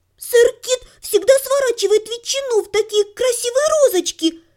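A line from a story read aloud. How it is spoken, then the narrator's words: Squeaky boy's voice. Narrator (Russian): пропищал мальчишка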